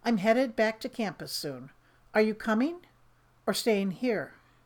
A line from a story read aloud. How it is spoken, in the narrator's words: He keeps his voice steady and even and says